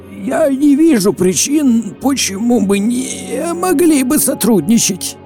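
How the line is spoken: Hoarse, frightened. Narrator (Russian): В широко раскрытых глазах Оровина застыло выражение страха, когда он хрипло произнес

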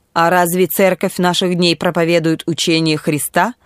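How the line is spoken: Quick question. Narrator (Russian): быстро спросил Эрнест

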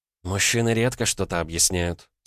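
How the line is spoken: Calm remark. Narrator (Russian): спокойно заметила Вера

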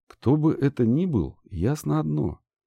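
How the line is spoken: Quiet. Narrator (Russian): тихонько сказала Банши

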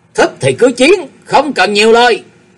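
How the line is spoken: Dazed, raised-voice reply. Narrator (Vietnamese): thế tử như ở trong mộng mới tỉnh cao giọng trả lời

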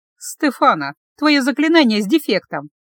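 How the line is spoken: Snide, mocking. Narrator (Russian): ехидно отметила я

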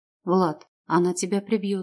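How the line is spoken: Calm assertion. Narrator (Russian): спокойно утверждаю я

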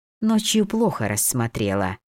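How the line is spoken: Mocking. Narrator (Russian): насмешливо добавила Ула

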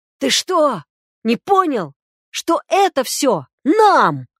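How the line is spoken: Agonized yelling. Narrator (Russian): Белогуров орал, словно ему без наркоза ампутировали ногу

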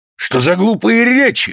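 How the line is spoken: Exclaiming. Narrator (Russian): воскликнул маэстро

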